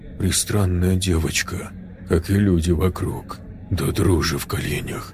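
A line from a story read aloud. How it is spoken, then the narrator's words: Quiet. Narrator (Russian): тихо сказал Джек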